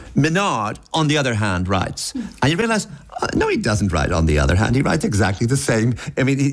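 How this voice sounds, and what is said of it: Usual voice. Nothing is said of it.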